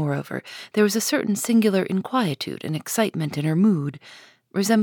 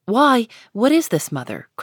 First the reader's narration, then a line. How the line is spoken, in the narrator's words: cried she